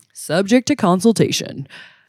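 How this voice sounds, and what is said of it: Mock announcer voice. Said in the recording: “I got my announcer voice on.”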